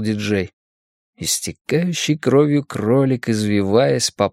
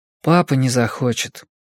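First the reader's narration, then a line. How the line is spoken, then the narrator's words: Quiet. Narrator (Russian): тихо ответил Сами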